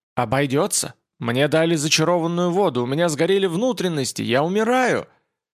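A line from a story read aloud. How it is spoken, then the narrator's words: Screaming. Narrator (Russian): Кася кричала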